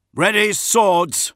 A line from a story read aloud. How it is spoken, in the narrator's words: shouted Solomon